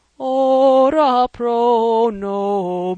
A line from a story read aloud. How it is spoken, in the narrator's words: wailed Raoul from the organ loft